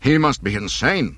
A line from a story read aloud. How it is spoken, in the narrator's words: Captain Nida cried